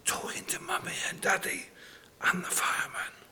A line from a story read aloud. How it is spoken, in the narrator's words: came the whispered answer